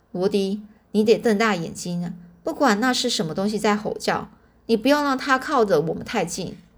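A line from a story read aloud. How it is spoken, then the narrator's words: Low voice. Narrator (Chinese): 我低声对对这个罗迪说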